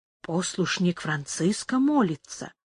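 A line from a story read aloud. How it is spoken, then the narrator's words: Quiet remark, leader. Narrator (Russian): тихо заметил начальник карлистов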